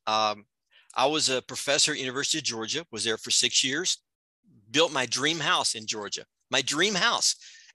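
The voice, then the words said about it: Slight Southern US accent. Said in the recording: “You have a little bit of a Southern accent.”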